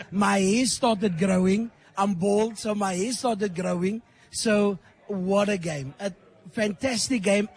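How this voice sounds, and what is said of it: Hoarse, strained voice. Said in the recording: “as you can hear, I lost my voice. I lost my voice. ... My voice is gone.”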